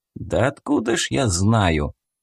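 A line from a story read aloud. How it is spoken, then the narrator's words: Grumbling with a smile. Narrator (Russian): проворчал Степан, не скрывая улыбку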